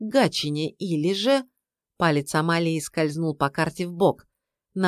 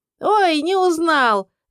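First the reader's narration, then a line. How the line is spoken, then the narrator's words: Shrill woman, then cackling. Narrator (Russian): визгливо объявила баба и захохотала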